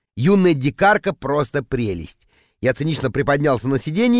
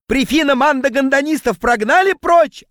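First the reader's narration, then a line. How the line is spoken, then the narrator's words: Yelling. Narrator (Russian): орал он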